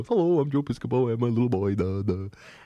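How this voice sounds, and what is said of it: Goofy doofus impression of Joe Piscopo. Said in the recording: “I'd do a Joe Piscopo impression ... I'm like this big doofus guy that walks around and goes”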